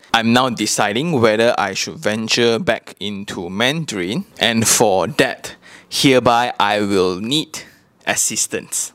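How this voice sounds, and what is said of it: Malaysian English (Manglish) accent. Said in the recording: “my English speaking accent, my Manglish”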